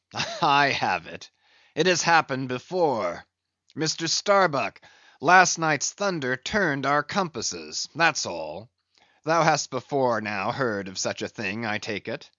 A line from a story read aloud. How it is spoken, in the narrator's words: the old man, with a rigid laugh, exclaimed